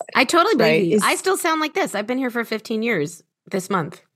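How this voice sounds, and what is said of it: American accent. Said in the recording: “I love my American accent”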